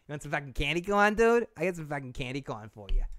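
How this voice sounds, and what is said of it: Put-on Boston accent. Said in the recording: “There's my Boston accent coming out.”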